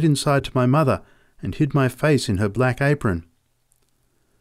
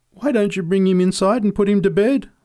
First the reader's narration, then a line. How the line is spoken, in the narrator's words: pleaded